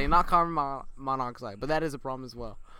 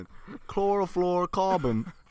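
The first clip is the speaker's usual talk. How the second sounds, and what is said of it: Put-on British accent. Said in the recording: “Why'd you say it in a British accent?”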